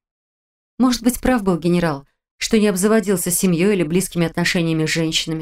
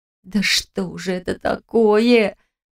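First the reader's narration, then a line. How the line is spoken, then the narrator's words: Confused near-moan. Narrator (Russian): Почти простонала я, не понимая, что происходит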